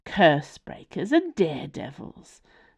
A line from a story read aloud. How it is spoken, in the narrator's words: sighed Partridge or Elsie